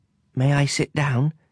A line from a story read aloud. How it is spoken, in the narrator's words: the little prince timidly inquired